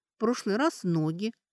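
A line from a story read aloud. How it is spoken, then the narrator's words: Thoughtful. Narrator (Russian): задумчиво сказала Кейтрия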